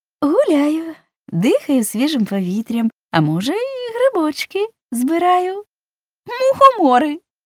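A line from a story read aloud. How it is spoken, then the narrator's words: Cheerful laugh, woman. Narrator (Ukrainian): Весело засміялася незнайомка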